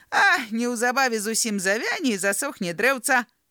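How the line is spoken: Wry smile, mean boy. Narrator (Belarusian): крыву усміхнуўся нядобры хлопчык

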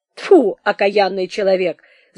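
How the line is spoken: Laughing, stern official. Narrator (Russian): засмеялся грозный исправник

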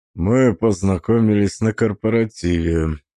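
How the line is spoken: Muffled, dull voice. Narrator (Russian): сказал он, наконец, глухо

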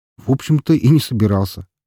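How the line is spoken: Snorting remark. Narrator (Russian): хмыкнул я

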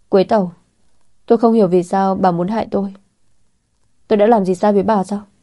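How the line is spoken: Furious, through gritted teeth. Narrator (Vietnamese): tức giận đến ngực phập phồng, nghiến răng nghiến lợi

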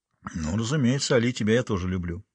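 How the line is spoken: Mumbling. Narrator (Russian): пробормотал он

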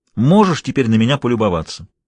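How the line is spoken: Continued. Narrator (Russian): продолжал

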